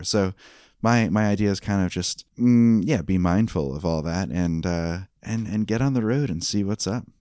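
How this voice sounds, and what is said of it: Southern American accent. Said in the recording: “Your southern accent is so amazing.”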